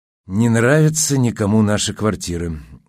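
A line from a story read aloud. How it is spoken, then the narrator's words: Sad report. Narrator (Russian): грустно докладывала она Полуянову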